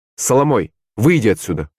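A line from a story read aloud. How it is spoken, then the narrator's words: Stern. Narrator (Russian): строго сказал он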